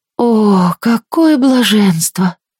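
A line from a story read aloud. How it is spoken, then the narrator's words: Blissful moan. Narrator (Russian): стонала Моретти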